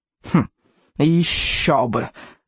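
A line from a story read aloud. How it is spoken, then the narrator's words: Smug snort. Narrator (Russian): самодовольно хмыкнул Беззубик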